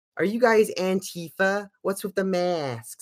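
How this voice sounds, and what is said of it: Nasal American accent. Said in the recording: “that accent was fucking fabulous, by the way... There's good American accents and there's fucking awful nasal ones.”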